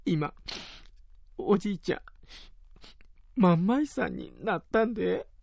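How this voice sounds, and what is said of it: Tearful whisper. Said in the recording (Japanese): “涙声で ささやいた”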